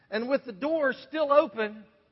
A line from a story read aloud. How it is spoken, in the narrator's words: I yelled